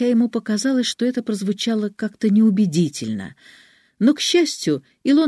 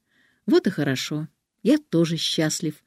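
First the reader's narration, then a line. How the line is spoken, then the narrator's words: Plain. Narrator (Russian): сказал он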